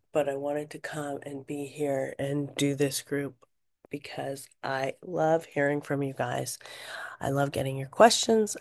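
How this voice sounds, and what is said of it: Hoarse, strained voice. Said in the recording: “my voice is a little thrashed from the fires and everything that's been happening in the air quality in LA”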